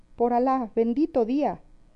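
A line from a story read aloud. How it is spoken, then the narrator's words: Messenger's exclamation. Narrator (Spanish): Y el mandadero exclamó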